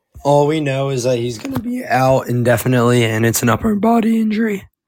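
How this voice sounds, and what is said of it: Hoarse, cracking voice. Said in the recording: “I'm like losing my voice, so I'm trying to like not voice crack so much.”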